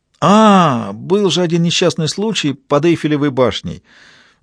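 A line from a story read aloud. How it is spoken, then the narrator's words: Exclaim. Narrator (Russian): воскликнул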